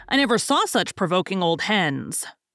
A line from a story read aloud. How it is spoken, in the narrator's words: growled Tommy